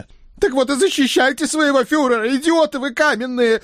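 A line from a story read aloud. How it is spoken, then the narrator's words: Howling in pain. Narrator (Russian): взвыл Центурион, словивший отлетевший доской меж ушей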